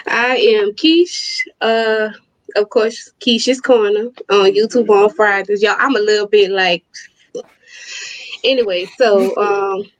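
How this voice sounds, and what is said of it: New Orleans accent. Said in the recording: “She got the accent, too... She's straight New Orleans.”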